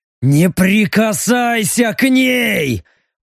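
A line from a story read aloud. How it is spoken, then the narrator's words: Growled. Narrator (Russian): прорычал стриж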